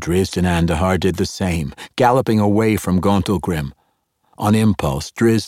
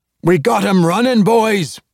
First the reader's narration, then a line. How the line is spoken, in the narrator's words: roared, leading the charge